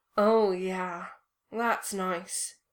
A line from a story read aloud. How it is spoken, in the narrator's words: he purred